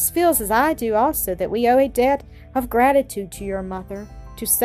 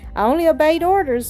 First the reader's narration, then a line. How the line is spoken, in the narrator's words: was his laughing rejoinder